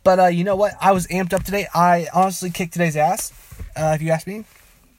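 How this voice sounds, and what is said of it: Talking super fast. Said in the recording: “If you can tell by my voice, I am talking super fast, and I cannot help it.”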